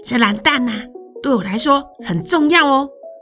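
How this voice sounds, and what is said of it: Quiet, lowered voice. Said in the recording (Chinese): “小声的压低声量对阿告说”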